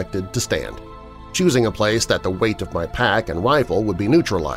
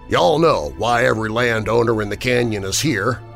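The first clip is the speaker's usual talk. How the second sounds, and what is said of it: Texas hill country twang. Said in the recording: “His voice, saturated in the twang I knew well, came from life in the Texas hill country.”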